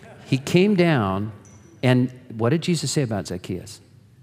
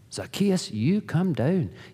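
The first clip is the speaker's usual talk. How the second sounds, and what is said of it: Put-on Scottish accent. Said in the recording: “You have to say that with a Scottish accent”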